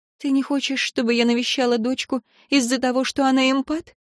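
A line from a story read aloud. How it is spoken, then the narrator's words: Slightly trembling voice. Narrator (Russian): уточнила Виктория чуть дрожащим голосом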